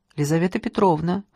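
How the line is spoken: Dry introduction. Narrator (Russian): сухо представилась Лиза

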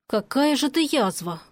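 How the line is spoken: Grumbling mutter. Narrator (Russian): буркнул он

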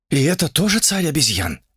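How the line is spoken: Uncertain. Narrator (Russian): неуверенно сказал кто-то из толпы

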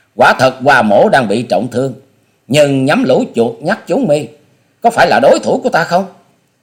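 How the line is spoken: Bold hearty laughter. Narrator (Vietnamese): trước tình thế không thể lùi bước, cố dẫn khí đơn điện, buông ra một chuỗi cười to hào sảng

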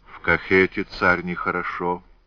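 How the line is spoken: Soft. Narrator (Russian): мягко произнес Дементий

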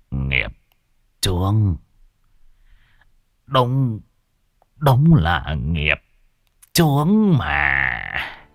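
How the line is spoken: Dazed old man muttering. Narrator (Vietnamese): Lão thất thần, miệng lẩm bẩm

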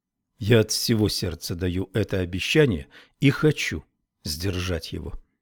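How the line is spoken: Plain. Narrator (Russian): ответила я

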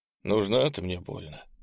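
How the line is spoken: Sighing, noble man. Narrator (Russian): вздохнул благородный Ант

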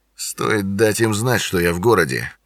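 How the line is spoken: Muttering under breath. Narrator (Russian): пробормотал себе под нос

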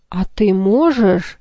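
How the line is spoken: Frightened gasp. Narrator (Russian): испуганно ахнула Луша

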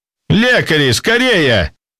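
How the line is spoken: Alarmed shout. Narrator (Russian): выкрикнул встревоженный ведущий

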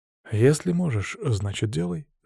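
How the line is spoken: Calm. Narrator (Russian): спокойно кивнул я

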